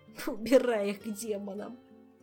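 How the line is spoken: Groan choked with laughter. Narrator (Russian): простонал Кантор, давясь от смеха

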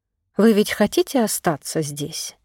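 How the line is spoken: Quiet question. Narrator (Russian): тихо спросила

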